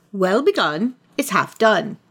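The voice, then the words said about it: Poor put-on British accent. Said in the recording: “that is a terrible British accent.”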